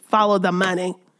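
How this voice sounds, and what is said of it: Imitates another person's voice. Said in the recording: “In my Maxine Waters voice.”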